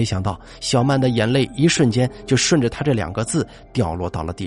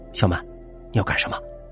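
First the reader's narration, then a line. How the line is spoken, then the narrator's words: Whispered question. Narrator (Chinese): 我悄声问道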